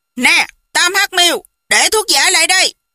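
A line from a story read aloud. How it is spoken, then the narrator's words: Barked command. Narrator (Vietnamese): Khưu Sử Cơ quát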